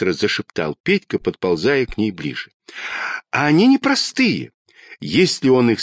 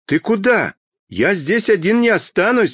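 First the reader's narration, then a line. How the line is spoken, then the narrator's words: Shouted. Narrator (Russian): закричал Петька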